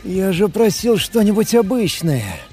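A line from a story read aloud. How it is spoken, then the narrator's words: Sighing. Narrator (Russian): Вздохнул я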